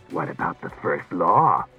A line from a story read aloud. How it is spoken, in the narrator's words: mocked Klusar